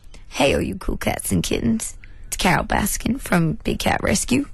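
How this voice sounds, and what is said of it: Carol Baskin impression. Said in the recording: “your Carol Baskin voice”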